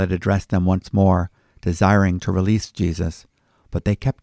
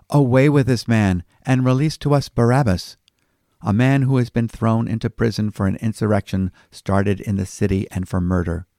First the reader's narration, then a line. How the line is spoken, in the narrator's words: they all cried out together